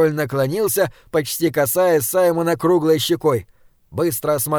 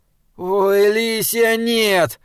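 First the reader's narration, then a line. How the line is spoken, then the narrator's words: Groaning. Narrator (Russian): простонал Саймон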